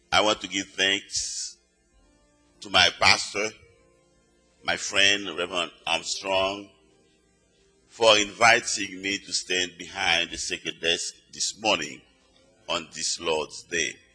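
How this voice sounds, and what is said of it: Noticeable non-native accent. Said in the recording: “how does she understand my accent? Because most of the time, my accent gets on the way.”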